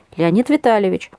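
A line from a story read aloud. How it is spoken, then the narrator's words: Said, nearly laughing. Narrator (Russian): сказал Леня и сам чуть не засмеялся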